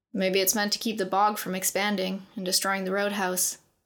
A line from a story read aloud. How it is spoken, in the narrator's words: Keelan said